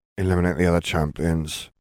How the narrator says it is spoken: he muttered

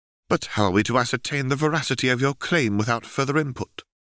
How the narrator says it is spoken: the archivist replies testily

